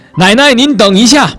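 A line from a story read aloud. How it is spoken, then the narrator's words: Involuntary cry. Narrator (Chinese): 小张情不自禁地喊了一声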